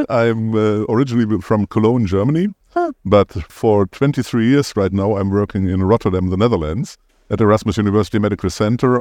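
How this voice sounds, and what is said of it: German accent. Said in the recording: “As you might hear, I have a German accent.”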